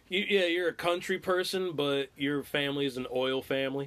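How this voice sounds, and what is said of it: Slight country twang. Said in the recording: “you heard my twang right there ... That twang comes out once in a while”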